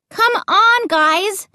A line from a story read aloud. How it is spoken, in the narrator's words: I shouted